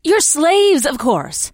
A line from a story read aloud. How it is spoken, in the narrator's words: she said impatiently